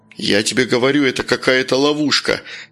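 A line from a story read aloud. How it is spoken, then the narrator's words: Plain. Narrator (Russian): сказал Ласкин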